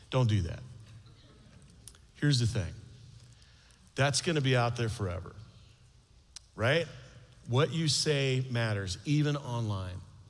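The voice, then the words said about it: Stern fatherly voice. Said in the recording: “outside dad voice.”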